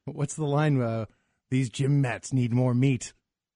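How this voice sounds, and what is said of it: Impression of Lunch Lady Doris. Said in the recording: “Do I sound like Lunch Lady Doris from The Simpsons or no? ... Now you sound like her.”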